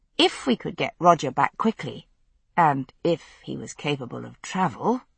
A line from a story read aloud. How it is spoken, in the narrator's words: I added grimly to myself